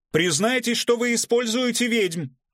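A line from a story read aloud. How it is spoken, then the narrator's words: Shouted, young man. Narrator (Russian): выкрикнул молодой, но уже лысеющий репортер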